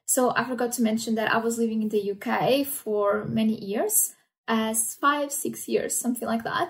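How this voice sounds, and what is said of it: Mixed, hard-to-place accent. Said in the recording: “my accent is a mix of everything. Nobody can place where my accent is from.”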